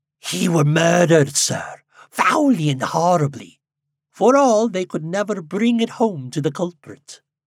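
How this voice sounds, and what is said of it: Sibilant, hissing voice. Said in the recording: “spoke in a sibilant voice”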